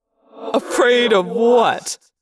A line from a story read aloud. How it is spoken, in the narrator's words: laughed